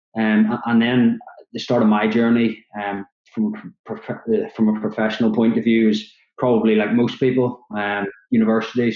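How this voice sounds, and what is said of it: Northern Irish Belfast accent. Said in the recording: “from the accent, you can probably tell I'm from Belfast in Northern Ireland”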